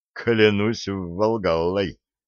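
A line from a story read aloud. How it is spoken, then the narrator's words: Muttering. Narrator (Russian): пробормотал Хельга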